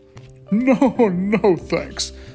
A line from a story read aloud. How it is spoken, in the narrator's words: chuckled the knight